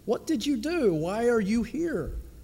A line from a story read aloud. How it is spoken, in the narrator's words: he exclaimed